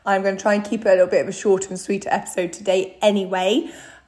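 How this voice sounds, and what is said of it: Croaky, recovering voice. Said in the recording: “I probably sound very different because I am just coming out of a week long of having no voice ... no matter how croaky my voice sounds”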